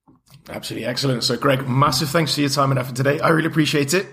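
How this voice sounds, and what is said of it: Hoarse, fading voice. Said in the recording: “losing my voice at the end there”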